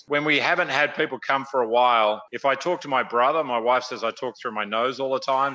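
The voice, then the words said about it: Australian accent with slight Midwest tinge. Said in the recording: “It started as an Australian accent, and I've been here 30 years now, and I'm still stuck with it ... I get a bit of a Midwest roll to it. But otherwise, yeah, it's an Australian accent.”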